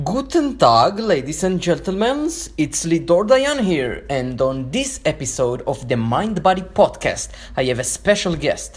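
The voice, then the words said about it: Speaks with a Jewish accent. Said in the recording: “with the sexy Jewish accent”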